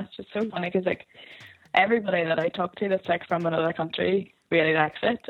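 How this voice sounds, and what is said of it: Broad regional accent. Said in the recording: “Can you make out my accent okay? ... I've been trying so hard to, like, not talk broad, but it'll slip through ... I actually hate my accent so much”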